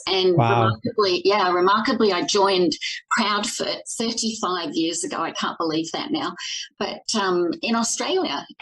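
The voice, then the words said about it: Australian accent, not Canadian. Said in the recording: “you don't sound like a native Torontoan to me ... I'm from Australia originally. So if you got any of that twang, certainly not Canadian”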